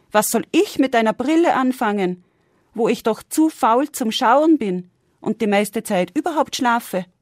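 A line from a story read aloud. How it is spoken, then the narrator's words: Astonished exclamation. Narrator (German): rief erstaunt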